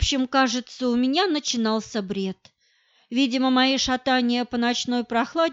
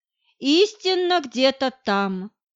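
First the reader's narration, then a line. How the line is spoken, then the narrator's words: Satanic laughter. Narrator (Russian): с сатанинским хохотом произнес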